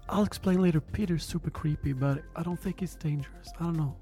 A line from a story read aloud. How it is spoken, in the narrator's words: Thomas whispers to Chad